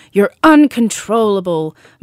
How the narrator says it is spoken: Mum screamed dramatically

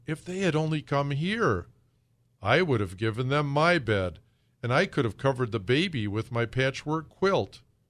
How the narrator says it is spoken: exclaimed Papa Panov

